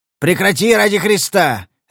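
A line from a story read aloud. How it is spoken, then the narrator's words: Barked. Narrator (Russian): рявкнул он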